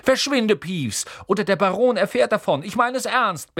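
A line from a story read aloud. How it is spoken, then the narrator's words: Barked. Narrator (German): bellte Percy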